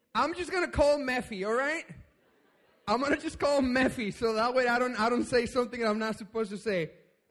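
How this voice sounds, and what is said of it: Speaks with a noticeable accent. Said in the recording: “because of my accent, that doesn't help me very much”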